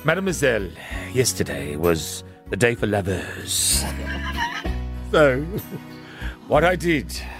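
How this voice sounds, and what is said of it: Exaggerated put-on French accent. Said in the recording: “Oh, my God, the accent... It's really awkward. It's offensive to the French.”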